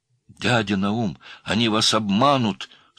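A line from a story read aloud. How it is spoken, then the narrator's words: Forced-out shout. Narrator (Russian): сумел, наконец, закричать Сыроежкин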